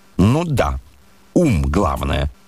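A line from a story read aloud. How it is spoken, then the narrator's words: Agreeing. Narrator (Russian): поддакнул он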